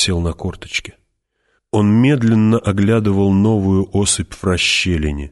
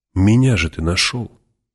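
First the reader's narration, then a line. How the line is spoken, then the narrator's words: Soft, persuasive. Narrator (Russian): сказала Джессика уже мягко, убеждающе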